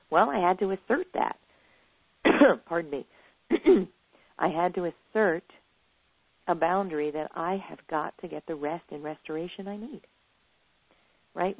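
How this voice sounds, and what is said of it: Froggy, throaty voice needing to cough. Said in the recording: “I have a little frog in my throat. ... I'm going to have a big cough.”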